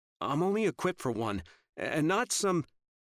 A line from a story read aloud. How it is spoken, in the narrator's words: His voice cracked when he said